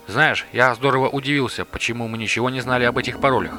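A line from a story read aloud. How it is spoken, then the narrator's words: Mumbled. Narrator (Russian): промямлил Рубас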